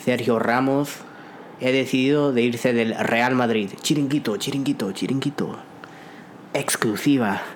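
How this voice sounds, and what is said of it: Imitates a Spanish sports TV presenter. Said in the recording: “my chiringuito impression”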